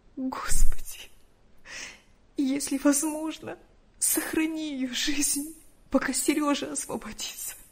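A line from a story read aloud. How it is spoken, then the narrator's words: Daughter's tearful pleading. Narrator (Russian): Сквозь слезы взмолилась дочь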